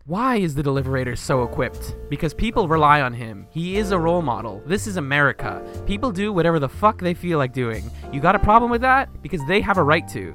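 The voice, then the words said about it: Dramatic narrator voice. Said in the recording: “I'm going to put on a fun little narrator voice.”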